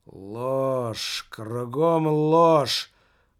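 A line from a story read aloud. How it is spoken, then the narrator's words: Weary speech. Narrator (Russian): устало проговорил маркетинг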